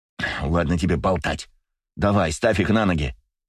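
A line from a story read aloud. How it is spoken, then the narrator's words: Snapping retort. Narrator (Russian): огрызнулся Леня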